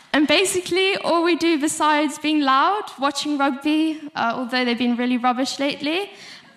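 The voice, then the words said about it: South African accent. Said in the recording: “If you couldn't hear from my accent, I'm South African.”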